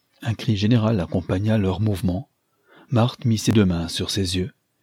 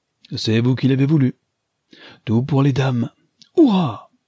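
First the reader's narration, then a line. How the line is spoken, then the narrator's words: Male exclamation. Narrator (French): s'écria-t-il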